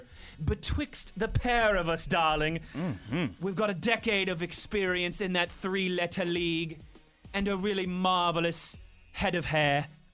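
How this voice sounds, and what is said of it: Fancy put-on accent. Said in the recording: “Oh, you fancy, fancy. Let me find out the sunshine make that accent come out.”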